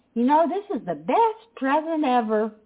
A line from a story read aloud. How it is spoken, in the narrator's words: I exclaimed